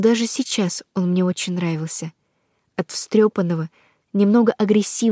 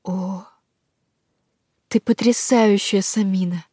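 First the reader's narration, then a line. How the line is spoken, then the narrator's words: Breathy werewolf. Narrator (Russian): выдохнул оборотень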